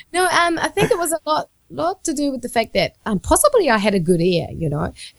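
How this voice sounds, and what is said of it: New Zealand accent. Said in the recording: “your weird Kiwi accent”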